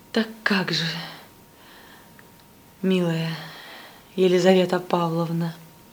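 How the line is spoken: Passionate whisper. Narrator (Russian): страстно прошептал молодой человек

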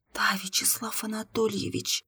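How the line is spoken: Girl's silent mouthed whisper. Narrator (Russian): одними губами прошептала девушка

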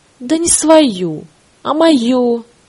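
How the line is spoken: Laughing speech. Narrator (Russian): рассмеявшись, сказала Оля

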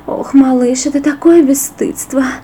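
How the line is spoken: Moaning woman. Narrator (Russian): простонала она

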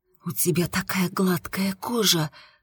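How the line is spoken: Breathless exclamation. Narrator (Russian): выдохнула я

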